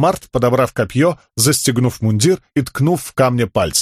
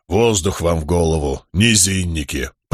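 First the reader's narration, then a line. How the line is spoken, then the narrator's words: Grumbling. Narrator (Russian): проворчал камень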